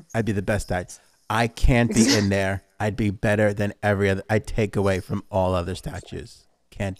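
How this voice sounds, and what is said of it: Imitates another person's voice. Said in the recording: “There goes my impression.”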